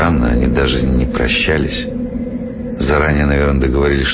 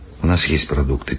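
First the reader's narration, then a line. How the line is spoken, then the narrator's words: Quiet, youngest speaker. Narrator (Russian): тихо сказал младший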